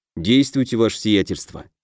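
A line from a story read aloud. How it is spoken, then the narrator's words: Quiet. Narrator (Russian): тихо произнес я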